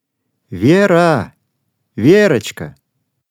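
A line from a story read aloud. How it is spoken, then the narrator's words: Loud call. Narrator (Russian): громко позвала мама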